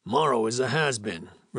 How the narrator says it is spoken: replied Holden roughly

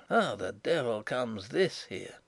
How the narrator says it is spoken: hear him mutter

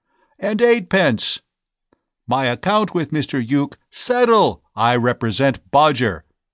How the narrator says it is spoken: voice lost in the general roar

